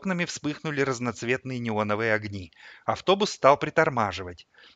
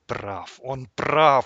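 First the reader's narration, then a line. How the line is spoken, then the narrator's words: Inner moaning. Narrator (Russian): стонало покойное сердце, никогда не знавшее покоя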